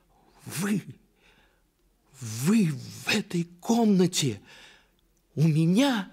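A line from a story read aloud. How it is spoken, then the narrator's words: Frightened cry. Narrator (Russian): вскрикнула княжна, узнав вошедшего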